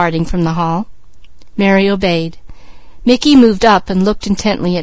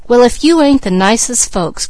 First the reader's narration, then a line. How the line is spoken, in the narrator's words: cried Mickey